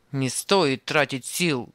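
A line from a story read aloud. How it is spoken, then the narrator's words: Rough grumble. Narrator (Russian): грубо пробурчал Анисим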